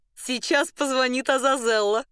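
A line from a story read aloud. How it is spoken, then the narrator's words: Exclamation. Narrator (Russian): воскликнула Маргарита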